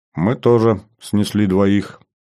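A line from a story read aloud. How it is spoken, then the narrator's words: Plain. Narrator (Russian): ответил Марат Ломов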